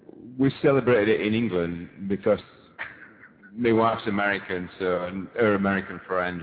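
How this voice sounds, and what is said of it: English accent from Leeds. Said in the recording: “Leeds, England. ... I couldn't tell with your accent.”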